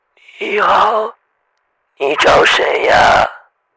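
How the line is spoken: Hoarse low male voice. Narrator (Chinese): 一个沙哑低沉的男声

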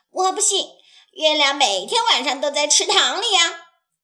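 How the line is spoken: Quacking duck. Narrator (Chinese): 鸭子嘎嘎地叫着

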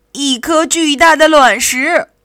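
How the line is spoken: Triumphant shout. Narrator (Chinese): 他洋洋得意的喊道

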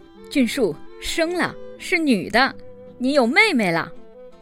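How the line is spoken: Excited shout. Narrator (Chinese): 兴奋地嚷道

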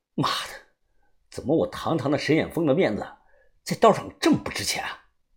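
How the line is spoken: Through gritted teeth. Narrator (Chinese): 我咬牙切齿

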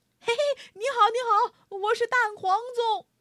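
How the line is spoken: Loud shouting. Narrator (Chinese): 南边过来的粽子高声大叫

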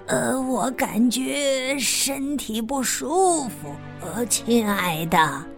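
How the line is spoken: Low, hushed voice. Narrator (Chinese): 大灰狼尽量压低了声音说

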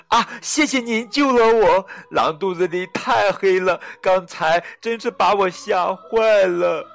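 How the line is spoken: Loud. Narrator (Chinese): 他大声说道

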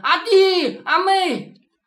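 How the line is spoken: Hoarse shouting. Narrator (Chinese): 嗓子都喊破了

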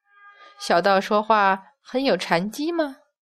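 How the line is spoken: Smiling. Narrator (Chinese): 一边说话，抬眼一笑

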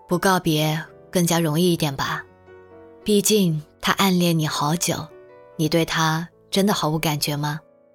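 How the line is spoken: Flat, indifferent. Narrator (Chinese): 他淡淡的说了句

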